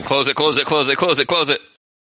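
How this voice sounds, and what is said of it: Shouting urgently. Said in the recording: “I'm shouting,”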